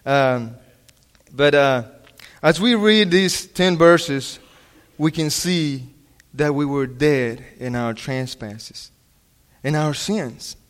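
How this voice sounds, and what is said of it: Non-native English accent. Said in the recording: “I was practicing my English and my accent. I'm sorry if I still don't do it right”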